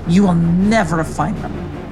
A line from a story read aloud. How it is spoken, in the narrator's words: snarled Mateo